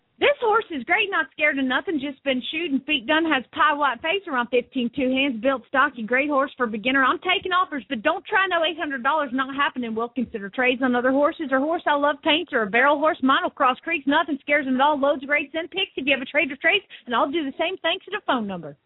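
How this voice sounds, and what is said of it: Put-on Southern accent. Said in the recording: “You put a southern accent in there. ... You put southern accent in there. ... That just made it sound sexier.”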